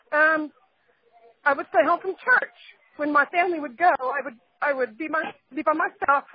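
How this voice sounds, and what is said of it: Emotional, choked-up voice. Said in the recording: “I'm getting a little bit emotional about this.”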